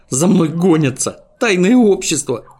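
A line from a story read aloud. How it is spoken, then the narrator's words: Babbling. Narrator (Russian): пролепетал он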